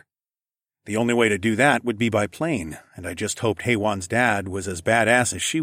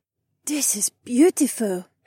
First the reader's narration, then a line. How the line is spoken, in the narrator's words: Haywan gasped